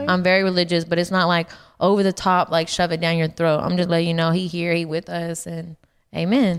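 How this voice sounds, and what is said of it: Deep Texas accent. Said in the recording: “you are from Texas, and this accent is so deep”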